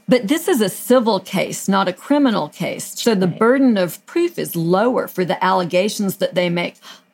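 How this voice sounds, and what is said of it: Southern American accent. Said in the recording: “It's my Southern accent.”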